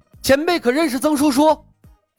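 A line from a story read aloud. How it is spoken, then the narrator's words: Excited, loud. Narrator (Chinese): 李牧语气瞬间兴奋了，高声道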